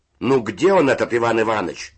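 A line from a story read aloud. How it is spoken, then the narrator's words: Shout from above. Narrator (Russian): закричал голос верхних нар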